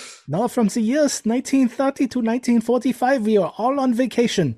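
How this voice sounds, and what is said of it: Usual voice. Nothing is said of it.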